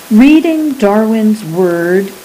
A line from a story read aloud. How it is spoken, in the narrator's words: he said